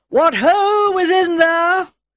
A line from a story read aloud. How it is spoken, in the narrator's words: She called out in a stentorian voice